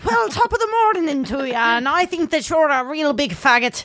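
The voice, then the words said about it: Put-on Irish accent. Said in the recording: “an attempt at an Irish accent”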